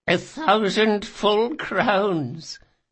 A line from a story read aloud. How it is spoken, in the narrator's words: said Aemon, giggling